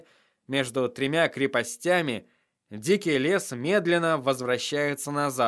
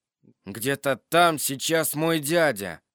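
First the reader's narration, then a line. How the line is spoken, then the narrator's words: Loud. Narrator (Russian): громко сказал в темноту Джон Сноу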